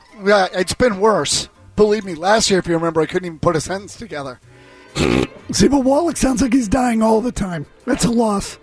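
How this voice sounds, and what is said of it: Rough, unwell-sounding voice. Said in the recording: “you sound like absolute crap today ... he doesn't sound good”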